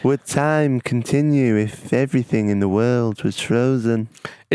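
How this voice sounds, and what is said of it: Imitates another person's voice, odd lisp. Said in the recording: “your Brian Cox impression ... It weren't great, was it? ... The lisp is odd.”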